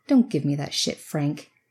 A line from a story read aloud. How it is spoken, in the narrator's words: Trixie snapped